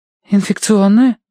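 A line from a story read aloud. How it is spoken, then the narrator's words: Frightened question. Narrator (Russian): испуганно переспросила она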